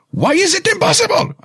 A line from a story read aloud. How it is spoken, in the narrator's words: I shout